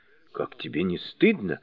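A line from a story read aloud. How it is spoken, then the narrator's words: Reproachful whisper. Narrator (Russian): укоризненно прошептал Джу Бадзе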